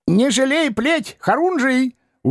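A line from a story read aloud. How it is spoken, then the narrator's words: Admiring shout. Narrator (Russian): успел восхищенно прикрикнуть вслед бравый бес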